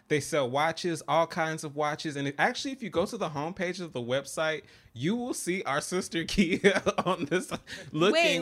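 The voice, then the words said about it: Country twang accent. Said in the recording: “I know I'm a little country, so that twang hit that when twine”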